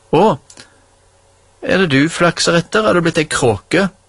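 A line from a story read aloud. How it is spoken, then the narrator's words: Mocking, grinning. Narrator (Norwegian): Jens og flirte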